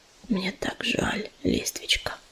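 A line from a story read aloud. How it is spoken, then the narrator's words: Whisper. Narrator (Russian): прошептал он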